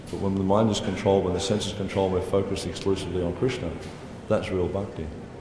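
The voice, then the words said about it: Australian accent. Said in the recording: “my Australian accent. Probably a bit difficult.”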